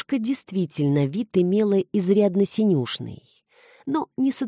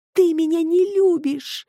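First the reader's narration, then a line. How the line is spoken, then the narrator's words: Sobbing. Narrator (Russian): зарыдала названная Викусиком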